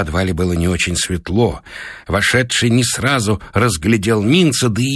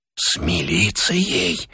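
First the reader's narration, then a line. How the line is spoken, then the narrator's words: Whisper from the doorway. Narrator (Russian): прошептал голос от двери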